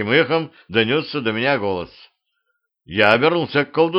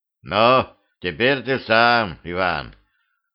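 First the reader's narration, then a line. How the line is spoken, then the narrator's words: Ordinary voice. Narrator (Russian): колдун проговорил обычным голосом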